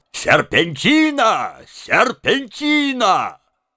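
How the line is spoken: Archivist's loud shout. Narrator (Russian): Архивариус громко закричал

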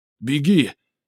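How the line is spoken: Yelling. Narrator (Russian): заорал Раймон

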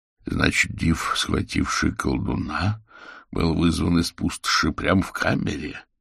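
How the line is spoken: Muttering. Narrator (Russian): пробормотал Булгаков

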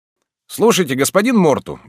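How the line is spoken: Cheerful exclamation. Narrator (Russian): весело воскликнул Карл

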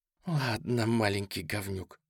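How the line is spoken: Hoarse wheeze. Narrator (Russian): просипела она

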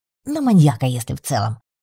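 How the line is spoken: Snorting. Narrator (Russian): фыркнул Аксолотль

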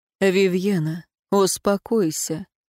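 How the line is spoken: Said softly. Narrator (Russian): мягко сказал Эруан

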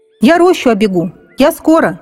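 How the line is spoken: Child shouting. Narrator (Russian): крикнул малец

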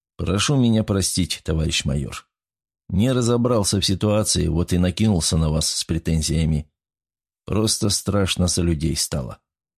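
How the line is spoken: Sighing, forced smile. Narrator (Russian): Шелестов вздохнул и, улыбнулся через силу и сказал

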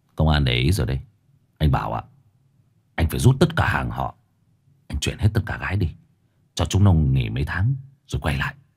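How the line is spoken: Sighing, cold but kind. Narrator (Vietnamese): Báu thở dài rồi nói bằng một giọng lạnh lùng nhưng tử tế

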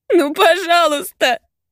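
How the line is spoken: Sobbing. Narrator (Russian): Схлипывает, начиная рыдать

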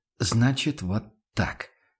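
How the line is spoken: Quiet statement. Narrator (Russian): констатировал Ван Ален тихо

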